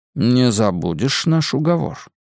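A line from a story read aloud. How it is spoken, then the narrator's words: Quiet question. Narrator (Russian): тихо спросил Лазарус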